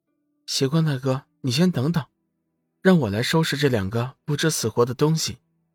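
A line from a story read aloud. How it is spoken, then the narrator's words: Calm, indifferent. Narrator (Chinese): 四公主淡淡的说道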